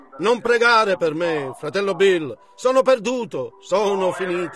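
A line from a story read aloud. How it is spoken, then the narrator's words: Plain. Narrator (Italian): disse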